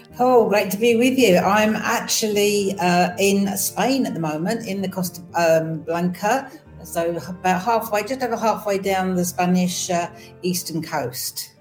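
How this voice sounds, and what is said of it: English accent. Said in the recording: “as you can tell by the accent, yes, I'm from the other side of the pond. My home normally is in England.”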